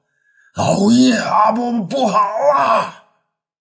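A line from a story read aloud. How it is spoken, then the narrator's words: Loud cry. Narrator (Chinese): 大声叫唤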